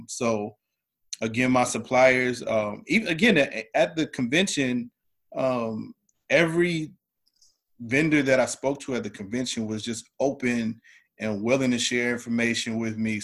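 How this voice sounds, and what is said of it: Southern American accent. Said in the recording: “my Southern accent, you can hear the Ebonics”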